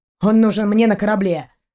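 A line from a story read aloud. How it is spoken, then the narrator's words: Snapping. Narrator (Russian): огрызнулся капитан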